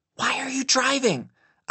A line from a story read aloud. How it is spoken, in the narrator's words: asked in a whisper